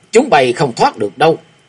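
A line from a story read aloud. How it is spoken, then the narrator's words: Loud roar. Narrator (Vietnamese): Hòa Thượng Dương lúc này lại gầm lớn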